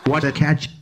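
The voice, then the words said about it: Richie Benaud impression. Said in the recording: “do a Richie Benno impression ... Your Richie Benno impression”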